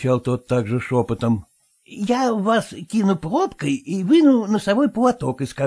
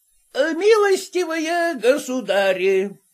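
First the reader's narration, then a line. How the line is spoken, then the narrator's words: Slurred drunken shout. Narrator (Russian): крикнул он уже несколько заплетающимся языком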